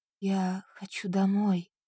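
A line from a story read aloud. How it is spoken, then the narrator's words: Helpless whisper. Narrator (Russian): прошептала она беспомощно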